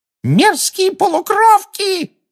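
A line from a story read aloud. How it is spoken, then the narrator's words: Shrieking. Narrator (Russian): завопила Амбридж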